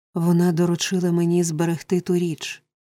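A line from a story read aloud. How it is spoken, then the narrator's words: Sick woman moaning. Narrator (Ukrainian): простогнала хвора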